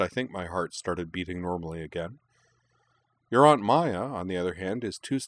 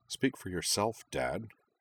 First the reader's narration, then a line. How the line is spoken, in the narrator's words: Kaname muttered